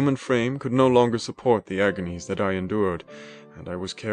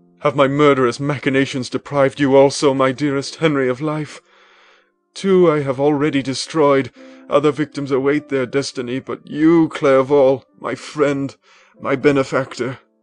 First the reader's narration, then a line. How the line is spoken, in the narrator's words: I gasped for breath, and throwing myself on the body, I exclaimed